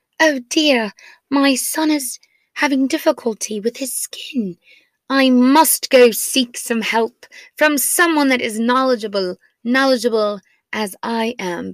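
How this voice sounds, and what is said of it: Put-on British accent. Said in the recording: “I speak with a British accent ... because I have this accent”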